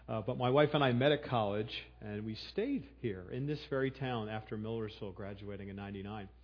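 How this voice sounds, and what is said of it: Philadelphia accent. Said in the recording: “I'm a Philadelphian, if you can't pick that up in my accent”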